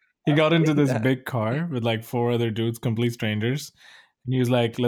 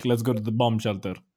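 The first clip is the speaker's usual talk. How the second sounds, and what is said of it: Put-on foreign accent. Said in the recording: “I'm so sorry for doing the accent.”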